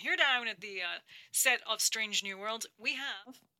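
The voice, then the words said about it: Put-on American accent. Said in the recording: “I don't know why I'm doing an American accent”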